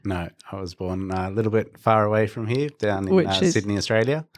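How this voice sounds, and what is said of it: Australian accent. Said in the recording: “But you never guessed from that accent.”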